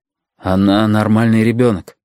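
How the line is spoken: Muffled, flat voice. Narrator (Russian): проговорил он глухо

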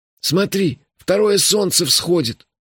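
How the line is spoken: Hoarse. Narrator (Russian): хрипло сказал Мелифара

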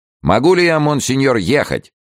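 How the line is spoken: Shouted. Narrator (Russian): прокричал Иоаннафан

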